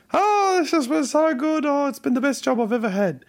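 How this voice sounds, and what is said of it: Put-on voice of employee Rebecca. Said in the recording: “do her the justice of doing her voice ... Do her the voice that we have all both agreed on.”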